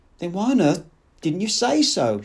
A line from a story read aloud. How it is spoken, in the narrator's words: She cried, and so intense was her exasperation